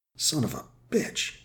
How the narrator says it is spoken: Joe breathed

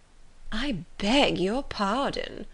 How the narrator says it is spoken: replied Miss Bingley, with a sneer

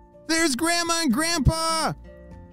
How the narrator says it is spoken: shouted

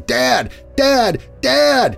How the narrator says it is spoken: at the top of my lungs

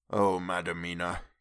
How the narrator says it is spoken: he said sadly

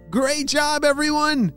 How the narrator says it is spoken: shouted Apollo

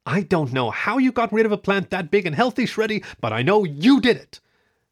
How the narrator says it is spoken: the red-haired woman, she yelled

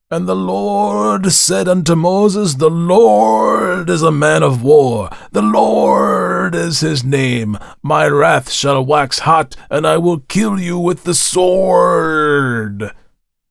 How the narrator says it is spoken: bellowed

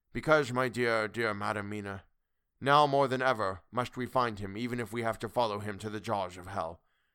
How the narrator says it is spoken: He looked at her gravely for a minute, and then said sorrowfully

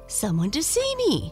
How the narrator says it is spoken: she exclaimed

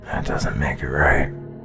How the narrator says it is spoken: muttered Brian

